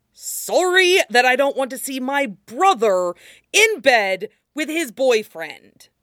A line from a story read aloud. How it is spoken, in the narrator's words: Jiang Wenyin says loudly